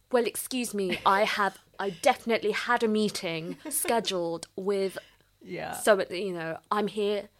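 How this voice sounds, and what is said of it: Exaggerated posh British accent. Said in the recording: “turning up my British accent, like, you know, going very, very posh”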